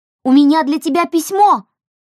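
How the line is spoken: Shouting into darkness. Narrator (Russian): крикнула она в темноту

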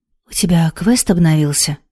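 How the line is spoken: Uncertain half-whisper. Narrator (Russian): Неуверенно, спросила полушепотом Хейта монах

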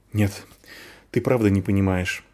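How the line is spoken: Sighed. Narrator (Russian): вздохнул Вар

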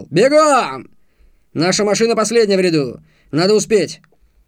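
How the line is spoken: Angrier shout. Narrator (Russian): еще злее выкрикнул

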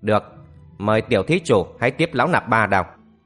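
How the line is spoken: Cold, proud. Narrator (Vietnamese): hào khí trong lòng đại hòa thượng chợt dâng lên, lão lạnh lùng nói

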